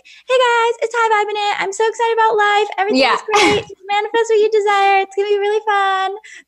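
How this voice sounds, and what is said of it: Exaggerated, inauthentic upbeat voice. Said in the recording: “imitating my... that's actually like a part of me that I was imitating... super inauthentic way”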